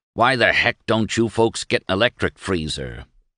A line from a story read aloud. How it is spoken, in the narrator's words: he growled